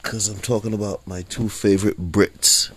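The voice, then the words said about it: Put-on British accent. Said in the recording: “I'm in my British voice.”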